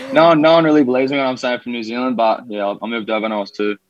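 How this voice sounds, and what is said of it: Australian accent. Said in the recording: “I'm pretty much an Aussie. I've got the accent”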